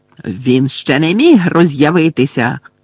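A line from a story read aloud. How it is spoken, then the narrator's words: Shout. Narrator (Ukrainian): крикнула Амбридж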